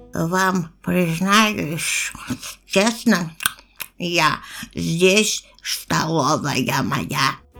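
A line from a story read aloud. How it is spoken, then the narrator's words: Lisping whisper, mouth full. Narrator (Russian): Ртом набитым шепеляво гусеница прошептала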